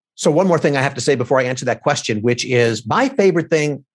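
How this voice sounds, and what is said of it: Sarcastic tone. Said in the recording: “That was sarcastic”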